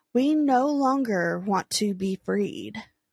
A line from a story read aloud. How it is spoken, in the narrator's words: in a calm voice respond